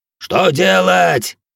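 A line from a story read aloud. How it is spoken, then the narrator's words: Many voices yelling. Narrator (Russian): орали другие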